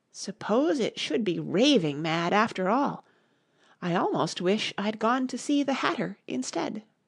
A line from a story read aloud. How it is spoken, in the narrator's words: saying to herself